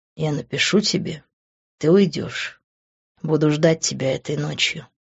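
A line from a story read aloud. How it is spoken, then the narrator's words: Quiet but insistent. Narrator (Russian): тихо, но настойчиво сказал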